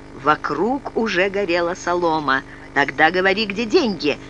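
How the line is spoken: Unexpectedly calm. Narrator (Russian): неожиданно спокойным голосом сказала она

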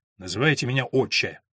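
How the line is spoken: Sharp, curt. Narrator (Russian): резко ответил приор

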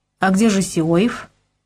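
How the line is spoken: Calm question. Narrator (Russian): прежним спокойным тоном спросил

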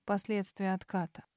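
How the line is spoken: Muffled reply. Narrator (Russian): глухо отозвался Себастин

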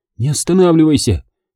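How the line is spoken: Hoarse breathless. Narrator (Russian): хрипло выдохнула она

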